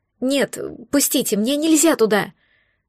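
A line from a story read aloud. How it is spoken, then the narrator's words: Pleading. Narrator (Russian): взмолилась я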